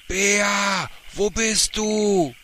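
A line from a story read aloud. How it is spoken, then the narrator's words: Bellowing at full volume. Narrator (German): atmete tief ein und brüllte so laut er konnte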